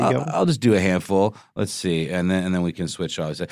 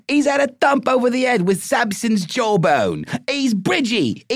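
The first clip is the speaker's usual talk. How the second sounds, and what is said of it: Cockney accent. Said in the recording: “most of these work really well if you say them in a Cockney accent”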